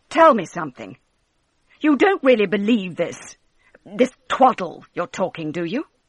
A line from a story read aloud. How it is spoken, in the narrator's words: her husband said sharply